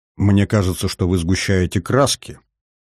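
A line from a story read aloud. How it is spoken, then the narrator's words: Quiet, thoughtful. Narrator (Russian): тихо произнес задумчивый Казер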